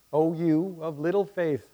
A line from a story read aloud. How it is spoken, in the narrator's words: Jesus says